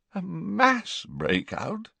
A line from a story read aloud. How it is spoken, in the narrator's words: the Prime Minister had repeated hoarsely